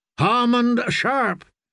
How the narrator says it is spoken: she shouted

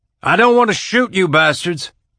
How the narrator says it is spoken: Alex shouted through the radio

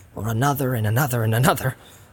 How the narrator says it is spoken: muttered Sam

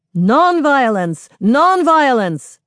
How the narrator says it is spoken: The chant changes to shouts of

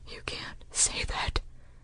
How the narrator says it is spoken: Holston whispered

